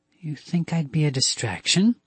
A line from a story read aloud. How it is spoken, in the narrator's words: Joe asked, in a low, deadly voice